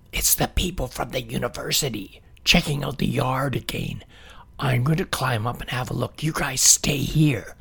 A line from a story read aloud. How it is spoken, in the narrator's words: Billy whispered